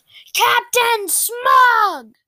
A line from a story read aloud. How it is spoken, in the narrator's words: Angrily, yelled